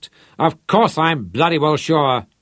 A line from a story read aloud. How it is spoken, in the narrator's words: snapped Rod